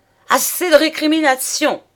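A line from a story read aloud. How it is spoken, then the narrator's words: Exclaimed. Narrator (French): s'écria-t-il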